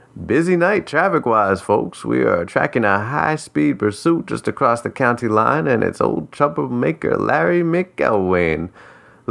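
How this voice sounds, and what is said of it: Radio announcer voice. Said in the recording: “The radio voice came on again.”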